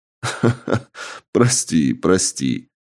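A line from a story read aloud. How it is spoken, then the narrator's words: Laughing. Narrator (Russian): рассмеялся мужчина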